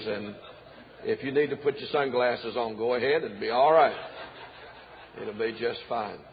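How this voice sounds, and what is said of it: South Carolina American accent. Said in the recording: “I know you cannot tell where I'm from, but we are from South Carolina. And my accent is purely American and clear as a bell.”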